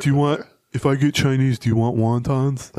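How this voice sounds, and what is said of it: Dumb, old, slow-sounding voice. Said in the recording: “This is a dumb, old, slow person ... her impression of me ... That is not very Sid Hartman ... It's not bad ... like Aaron Gleeman if he's from like the Connecticut”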